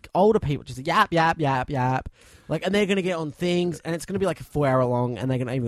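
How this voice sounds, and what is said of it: Usual voice. Nothing is said of it.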